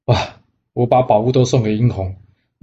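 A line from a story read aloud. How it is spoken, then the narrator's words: Sighing. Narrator (Chinese): 他叹了一口气，告诉姜子牙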